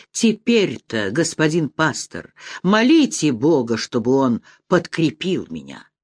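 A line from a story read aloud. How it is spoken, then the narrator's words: Trembling, convulsive voice. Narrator (Russian): он затрепетал и сказал духовнику судорожным голосом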